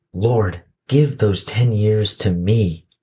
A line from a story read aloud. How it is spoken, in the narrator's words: begged the man